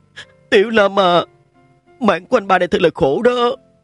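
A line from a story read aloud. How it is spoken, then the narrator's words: Sobbing loud cry. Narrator (Vietnamese): Nhàn Ngọc đỏ mắt, bỗng nhiên khóc thút thít, hét lớn lên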